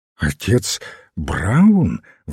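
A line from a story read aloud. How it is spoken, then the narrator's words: Exclamation. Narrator (Russian): воскликнул репортер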